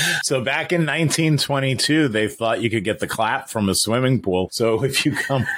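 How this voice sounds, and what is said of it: Usual voice. Nothing is said of it.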